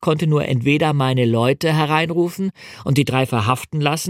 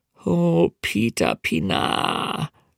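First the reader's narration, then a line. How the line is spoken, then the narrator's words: Inward groan. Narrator (German): stöhnte ich innerlich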